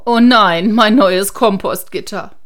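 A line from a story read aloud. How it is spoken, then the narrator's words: Grandma calling out. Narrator (German): Oma rief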